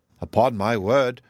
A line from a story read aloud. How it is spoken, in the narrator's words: replied Eleanor